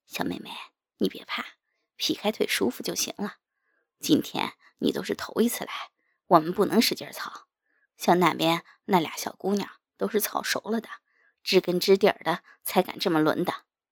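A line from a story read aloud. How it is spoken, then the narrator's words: Gentle, soothing. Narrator (Chinese): 唐小虎不由柔声安慰道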